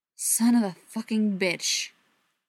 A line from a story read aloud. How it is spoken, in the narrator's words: Pete growled